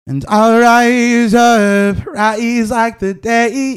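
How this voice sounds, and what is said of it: Sung imitation of a singer. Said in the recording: “that's an impersonation of like her song... that's a good impersonation... Andre Day sings like”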